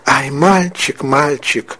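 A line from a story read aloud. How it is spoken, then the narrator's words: Sobbing cries. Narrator (Russian): Верочка продолжала рыдать, по-прежнему вскрикивая поминутно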